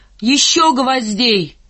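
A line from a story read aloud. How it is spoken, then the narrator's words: Shouting. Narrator (Russian): совсем как Машка, и крикнул ей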